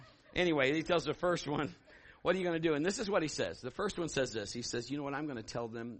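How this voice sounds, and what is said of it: Usual voice. Nothing is said of it.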